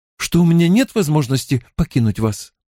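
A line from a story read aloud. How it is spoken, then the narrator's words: Uncertain. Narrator (Russian): неуверенно произнесла Зарине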